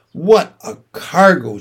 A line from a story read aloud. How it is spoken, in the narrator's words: she said